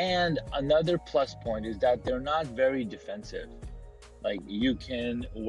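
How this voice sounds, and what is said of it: Usual voice. Nothing is said of it.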